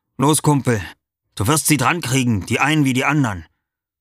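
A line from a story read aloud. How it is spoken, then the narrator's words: Encouraging call. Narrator (German): Clusio rief mir manchmal ermunternd zu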